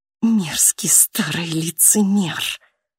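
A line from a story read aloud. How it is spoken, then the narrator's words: Hissing. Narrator (Russian): прошипела психиатр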